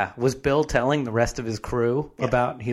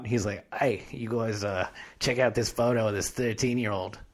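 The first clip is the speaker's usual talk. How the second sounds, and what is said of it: Put-on Australian accent. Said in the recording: “he's got an Australian accent now”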